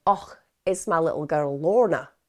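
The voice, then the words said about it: Put-on Scottish accent. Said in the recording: “Sorry, I'm going to stop this Scottish accent now.”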